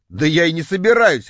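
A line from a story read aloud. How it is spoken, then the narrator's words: Wry grunt. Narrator (Russian): хмыкнул я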